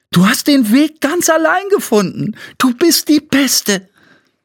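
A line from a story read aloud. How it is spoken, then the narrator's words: Calling out. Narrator (German): rief Flo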